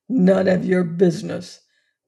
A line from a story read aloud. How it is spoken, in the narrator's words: growled the convict